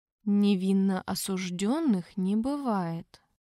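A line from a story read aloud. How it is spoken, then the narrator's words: Gentle, father. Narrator (Russian): мягко произнес папа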